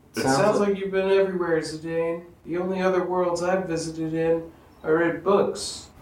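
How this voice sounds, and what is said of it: Impression of Garnet from Steven Universe. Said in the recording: “You finally land on Garnet's voice, and it turns out you do a great impression of Garnet from the TV show Steven Universe.”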